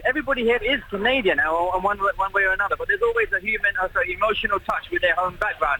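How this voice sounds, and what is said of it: British accent. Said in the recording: “as you can hear from my accent, I'm British”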